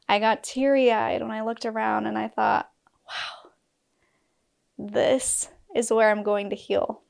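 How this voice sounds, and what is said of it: Choked-up, emotional voice. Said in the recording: “getting choked up right now... My gosh, I'm getting emotional.”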